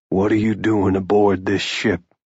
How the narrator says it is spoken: Jude asked evenly

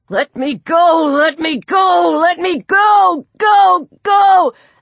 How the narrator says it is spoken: Peter, who spent half his time in his cage screaming

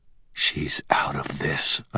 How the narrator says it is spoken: I said in a whisper

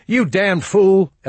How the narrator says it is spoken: Elmo was yelling

